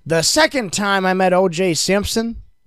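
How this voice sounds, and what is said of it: O.J. Simpson with Southern accent. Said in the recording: “I don't know why I gave him a southern accent.”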